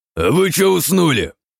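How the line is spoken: Growled. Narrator (Russian): рыкнул лидер на остальных

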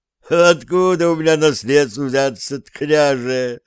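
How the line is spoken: Laughing. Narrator (Russian): рассмеялся Кошкин

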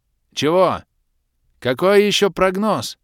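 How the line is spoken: Shouting over loud noise. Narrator (Russian): заорал пытаясь перекричать вопящую вселенную

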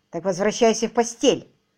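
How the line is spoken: Sharp command. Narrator (Russian): резко приказала

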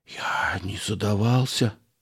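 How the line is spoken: Hopeless whisper. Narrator (Russian): бедный Ганнибоцер прошептал безнадежным тоном

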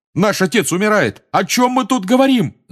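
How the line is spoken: Yelling. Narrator (Russian): заорал Джордж

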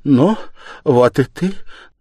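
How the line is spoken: Stammering with joy. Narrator (Russian): начала она, запинаясь от радости

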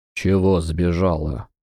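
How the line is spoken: Hoarse, strained, coughing. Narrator (Russian): Хрипло выдавил он и зашелся сухим кашлем

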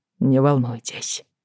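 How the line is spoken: Quiet. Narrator (Russian): тихо сказал он

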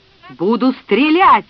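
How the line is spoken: Frenzied yell. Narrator (Russian): иступленно заорал Фред

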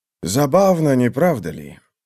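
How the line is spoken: Muttering. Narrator (Russian): пробормотал Рева

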